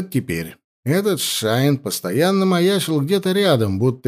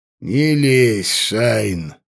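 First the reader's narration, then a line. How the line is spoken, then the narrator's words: Lazy dismissive remark. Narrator (Russian): лениво бросил воевода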